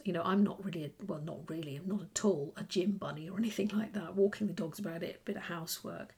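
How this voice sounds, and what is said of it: Croaky, tired voice. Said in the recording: “I'm a bit tired ... you can probably hear it in my voice. I'm a bit croaky. I do feel pretty tired.”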